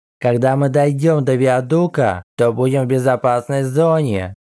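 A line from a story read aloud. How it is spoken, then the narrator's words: Plain. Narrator (Russian): сказал Мофань Синься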